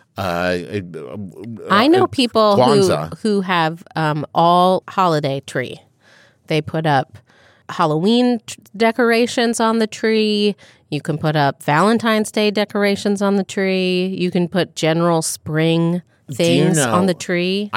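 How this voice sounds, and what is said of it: New Jersey accent, like Linda Belcher. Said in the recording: “years of Linda Belcher in your head ... You're saying it like you have like a New Jersey accent.”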